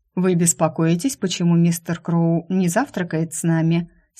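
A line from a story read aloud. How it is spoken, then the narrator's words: Plain question. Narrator (Russian): спросила она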